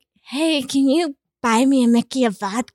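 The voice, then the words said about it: Imitates her younger self's voice. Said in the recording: “That's my impression of me at 17.”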